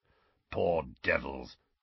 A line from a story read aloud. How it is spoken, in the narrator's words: growled Moody